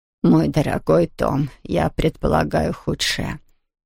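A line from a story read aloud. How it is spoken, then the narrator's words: Murmuring. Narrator (Russian): пробормотала Хедвиг Кюмельзавт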